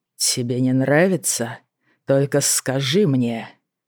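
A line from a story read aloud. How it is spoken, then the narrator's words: Whisper in ear. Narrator (Russian): Шептали на ухо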